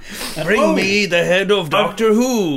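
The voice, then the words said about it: Dalek character voice. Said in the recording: “Do you want to hear my Dalek impression?”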